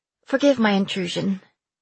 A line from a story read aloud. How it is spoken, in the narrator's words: I said quickly